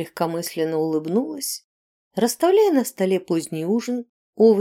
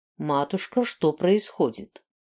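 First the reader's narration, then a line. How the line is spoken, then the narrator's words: Stern question. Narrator (Russian): строго спросил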